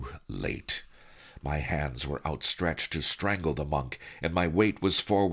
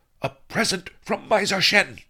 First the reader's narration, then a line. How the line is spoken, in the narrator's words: yelled